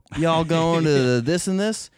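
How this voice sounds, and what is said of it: Put-on Southern drawl. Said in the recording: “people in Minnesota that have Southern accents ... a slower way of talking ... It's a draw.”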